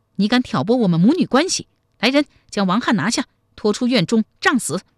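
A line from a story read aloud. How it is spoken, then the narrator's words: Furious. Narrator (Chinese): 太平公主大怒说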